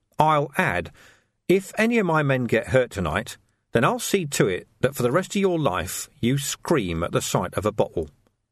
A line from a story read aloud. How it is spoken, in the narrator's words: said Vimes quietly